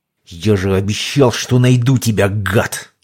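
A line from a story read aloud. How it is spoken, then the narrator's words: Growled. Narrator (Russian): зарычал староста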